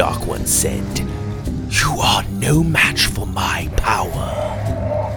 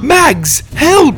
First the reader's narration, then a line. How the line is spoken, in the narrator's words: I cried